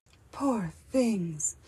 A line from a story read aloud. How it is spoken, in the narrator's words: murmured the queen softly